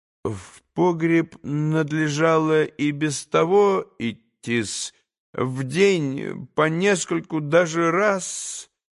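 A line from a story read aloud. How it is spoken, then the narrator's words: Slow drawl. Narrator (Russian): не спеша протянул Смердяков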